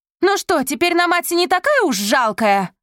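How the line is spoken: Shouted. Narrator (Russian): крикнула ему Софи

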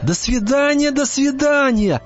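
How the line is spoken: Joyful little hare. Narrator (Russian): радостно кивнул зайчик

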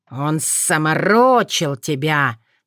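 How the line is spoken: Hissed. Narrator (Russian): прошипел Шос

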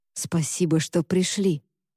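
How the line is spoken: Whispered. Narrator (Russian): прошептал

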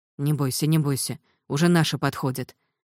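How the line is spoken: Whispered while walking. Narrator (Russian): Политрук шептал на ходу

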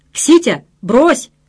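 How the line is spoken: Sharp bark. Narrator (Russian): рявкнул их представитель по делам печати

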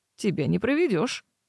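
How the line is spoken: Snort. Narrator (Russian): хмыкнул жених

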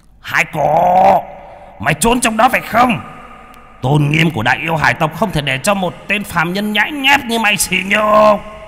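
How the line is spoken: Roaring. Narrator (Vietnamese): Hải Chu gầm lên một tiếng

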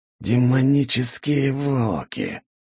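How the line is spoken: Man's furious hiss. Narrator (Russian): прошипел мужчина, а глаза его запылали яростью

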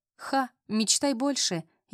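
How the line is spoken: Snide, smiling. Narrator (Russian): ехидно улыбнулась Вера

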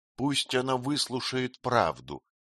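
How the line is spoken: Quiet speech. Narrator (Russian): тихо проговорила женщина

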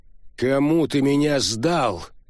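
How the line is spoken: Helpless roar. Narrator (Russian): взревел беспомощный Бентли

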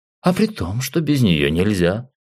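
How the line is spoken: Snorting. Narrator (Russian): хмыкнул он

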